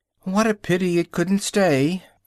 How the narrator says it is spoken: sighed the Lory

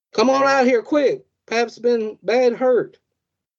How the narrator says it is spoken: they yelled

